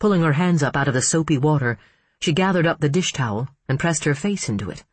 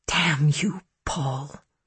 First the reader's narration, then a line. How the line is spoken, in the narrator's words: she whispered